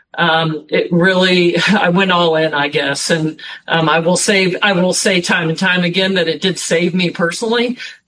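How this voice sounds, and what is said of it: Emotional, choked-up speaking voice. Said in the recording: “Sorry, I'm getting emotional.”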